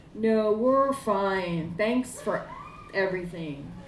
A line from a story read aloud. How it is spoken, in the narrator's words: he said